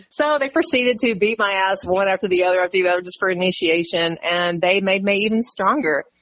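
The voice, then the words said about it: Strong country Texan accent. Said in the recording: “your country accent is like crazy”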